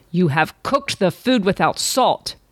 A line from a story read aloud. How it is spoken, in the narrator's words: roared